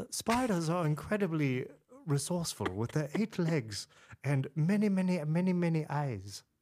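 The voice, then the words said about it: British David Attenborough impression. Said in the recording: “close us out with your British accent ... No, I mean the David Attenborough ... That was not so good. It was much worse.”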